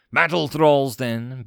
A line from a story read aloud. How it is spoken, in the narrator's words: Vakor snapped